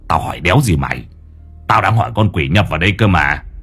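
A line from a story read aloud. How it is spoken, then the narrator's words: Old man grumbling. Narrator (Vietnamese): Lão Năm cằn nhằn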